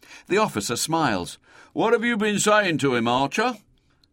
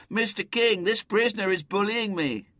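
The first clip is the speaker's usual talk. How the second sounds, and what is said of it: Plaintive, whining voice. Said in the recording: “in a plaintive voice.”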